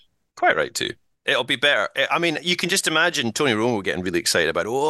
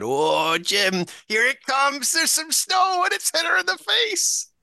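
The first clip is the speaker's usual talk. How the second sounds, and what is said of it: Decent Tony Romo impression. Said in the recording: “That was not bad. Romo impersonation.”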